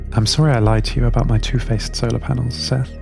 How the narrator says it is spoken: Minnie said

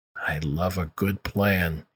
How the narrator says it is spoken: murmured

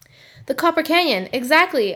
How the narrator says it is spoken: I exclaimed

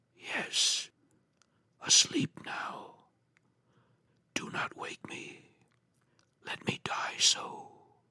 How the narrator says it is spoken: The lips moved sluggishly, and from between them, in a barely audible whisper, issued the words

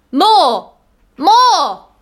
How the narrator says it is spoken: he cried

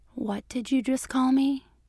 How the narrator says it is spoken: she said in a quiet voice, her heart starting to pound

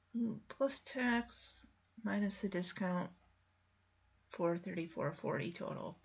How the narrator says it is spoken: he quietly mumbles

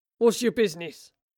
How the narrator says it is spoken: grunted one of the guards

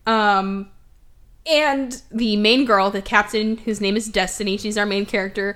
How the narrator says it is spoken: she yells out to the crowd

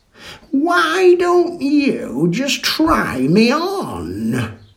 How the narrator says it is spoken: croaked the skull

